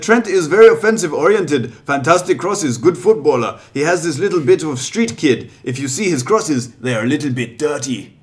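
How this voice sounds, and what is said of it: German accent, Jürgen Klopp impression. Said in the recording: “the German accent”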